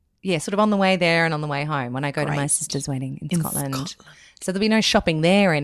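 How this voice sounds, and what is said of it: Usual voice. Nothing is said of it.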